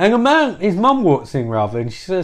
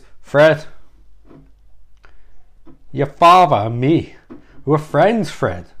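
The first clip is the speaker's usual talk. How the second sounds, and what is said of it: Bad Christopher Walken impression. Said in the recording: “worst Chris Walken impression ever. ... That's really bad.”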